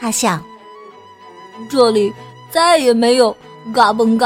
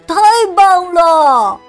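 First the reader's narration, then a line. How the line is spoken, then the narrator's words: Loud joyful cry. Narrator (Chinese): 他高声的欢叫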